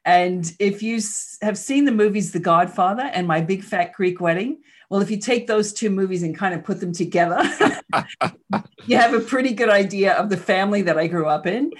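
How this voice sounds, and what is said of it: Slight Queens New York accent. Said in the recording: “I grew up in Queens, New York. You probably heard the accent a little bit.”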